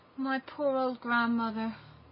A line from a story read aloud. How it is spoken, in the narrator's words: sighed Gerda